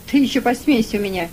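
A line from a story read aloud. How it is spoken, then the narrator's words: Barking snap. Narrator (Russian): рявкнул на него работорговец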